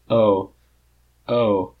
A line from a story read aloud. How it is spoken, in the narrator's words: Shitty says dryly in Lardo's ear